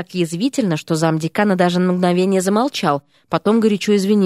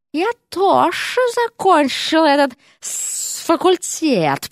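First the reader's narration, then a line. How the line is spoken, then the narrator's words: Hiss. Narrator (Russian): прошипела госпожа Серпентина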